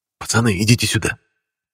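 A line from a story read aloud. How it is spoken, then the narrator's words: Whispered call. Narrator (Russian): Калюжный шепотом их позвал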